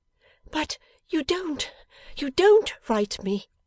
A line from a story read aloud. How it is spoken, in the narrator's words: exclaimed Bella, with great emphasis